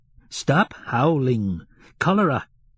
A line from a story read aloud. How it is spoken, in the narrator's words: cried angrily Fiekla, a good-looking woman, also strong and broad-shouldered